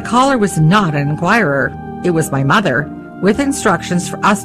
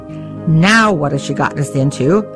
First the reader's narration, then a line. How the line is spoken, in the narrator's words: my father groaned